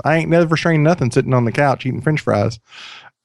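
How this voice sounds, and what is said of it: Put-on American country accent. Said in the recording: “I felt the need to say that in a country accent”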